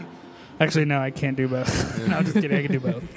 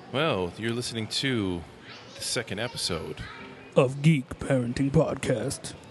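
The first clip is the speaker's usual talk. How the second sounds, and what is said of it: Put-on deep announcer voice. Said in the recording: “that was my best, like, deep voice.”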